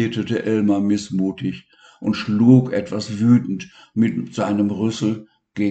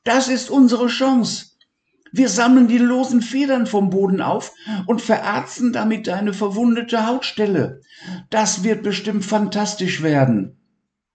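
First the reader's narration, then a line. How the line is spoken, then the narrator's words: Excited shout. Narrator (German): rief Levi ganz aufgeregt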